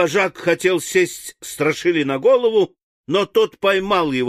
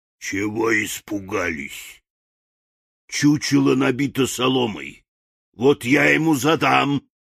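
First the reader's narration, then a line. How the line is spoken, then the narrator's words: Hoarse croak. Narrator (Russian): вожак стаи хрипло прокаркал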